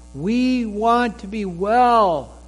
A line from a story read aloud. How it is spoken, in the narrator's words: scream out